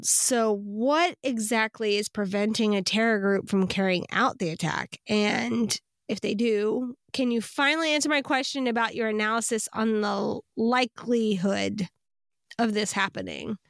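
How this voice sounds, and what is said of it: Vocal fry, congested voice. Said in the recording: “i just want to apologize for my vocal fry. I have a lot of drainage ... my voice is like not cooperating”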